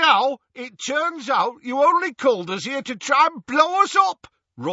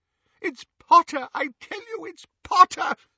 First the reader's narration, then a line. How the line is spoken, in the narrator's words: sobbed Xenophilius